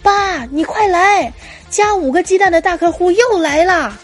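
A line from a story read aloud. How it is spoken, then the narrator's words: Child shouting. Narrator (Chinese): 这孩子回头就喊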